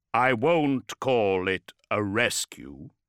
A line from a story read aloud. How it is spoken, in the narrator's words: said Ferus